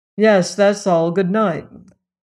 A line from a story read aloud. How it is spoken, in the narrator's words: his tone rather severe as he said